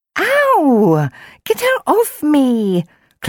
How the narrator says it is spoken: Chloe squeaked

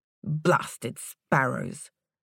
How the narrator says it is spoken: the storekeeper mumbled

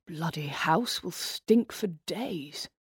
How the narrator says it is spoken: he muttered to himself

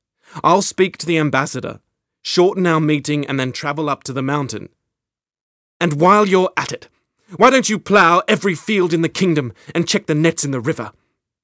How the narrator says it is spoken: she said sharply

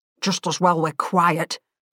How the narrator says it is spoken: grumbled

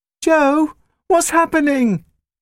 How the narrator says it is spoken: Scarlet cried

